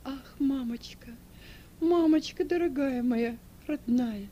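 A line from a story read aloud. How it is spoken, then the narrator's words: Sobbing speech. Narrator (Russian): рыдая говорила Эльва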